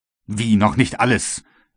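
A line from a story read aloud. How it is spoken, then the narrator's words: Astonished exclamation. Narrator (German): rief James Playfair über solch anspruchsvolles Gebaren erstaunt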